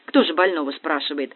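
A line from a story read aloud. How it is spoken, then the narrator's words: Wry snort. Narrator (Russian): хмыкнул Дегтярев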